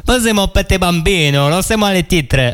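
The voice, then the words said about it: Fake Italian accent. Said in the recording (French): “est-ce que tu peux lancer le jingle avec l'accent italien ?”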